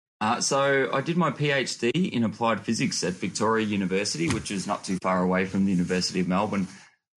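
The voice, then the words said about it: Australian accent. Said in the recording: “I can tell by the accent that you're an Aussie”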